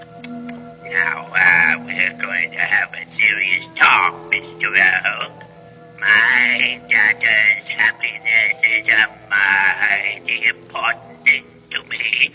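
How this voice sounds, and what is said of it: Silly character voice. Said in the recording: “that silly voice of yours”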